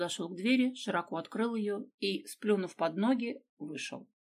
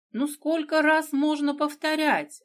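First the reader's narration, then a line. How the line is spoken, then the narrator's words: Stepmother shouting again. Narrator (Russian): опять закричала мачеха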